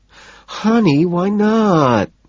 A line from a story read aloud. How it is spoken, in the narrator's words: She whines